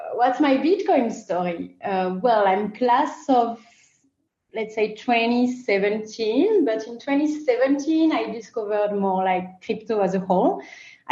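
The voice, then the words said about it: French accent. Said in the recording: “As you can recognize from my accent, I come from France.”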